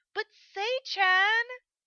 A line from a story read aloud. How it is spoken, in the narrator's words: Hokuto whined